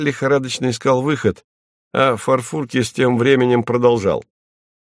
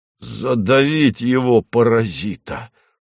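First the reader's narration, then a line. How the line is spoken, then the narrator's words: Hoarse rasp. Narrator (Russian): прохрипел Хлебоводов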